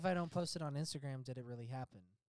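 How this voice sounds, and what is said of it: Sarcastic tone. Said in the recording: “that was sarcasm ... it was sarcasm”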